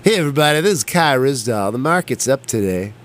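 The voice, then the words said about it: Impression of a radio host voice. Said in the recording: “I like to do my impression of Kai Rizdahl. Do you know who that is on NPR? ... So that's my radio thing for today. Do you have a radio voice you like to do?”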